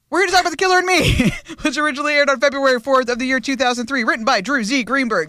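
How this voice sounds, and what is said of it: Deliberately very fast speech. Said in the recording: “like I'm talking really fast, but I'm doing it on purpose”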